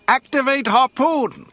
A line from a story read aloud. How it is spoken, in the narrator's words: Wedge shouted to his gunner